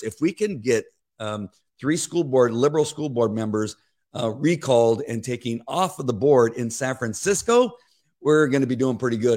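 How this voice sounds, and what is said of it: Rough voice needing clearing. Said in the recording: “sorry about my voice. I'm trying to get it cleared up and it just won't go”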